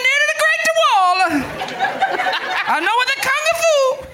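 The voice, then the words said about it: Put-on Chinese accent. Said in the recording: “I think he was doing a Chinese accent”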